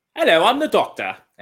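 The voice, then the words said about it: Poor imitation British accent. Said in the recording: “a horrible British accent ... The worst. It's definitely not the worst.”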